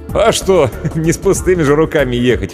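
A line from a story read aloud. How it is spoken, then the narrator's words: Chuckling. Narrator (Russian): хохотнул Иван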